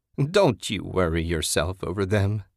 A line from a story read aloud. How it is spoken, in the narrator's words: she cackled